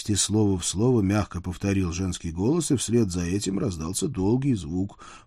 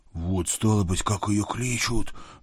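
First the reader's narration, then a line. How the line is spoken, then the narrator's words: Nervous whisper. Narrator (Russian): прошептал поверх моей фуражки вспотевший Митя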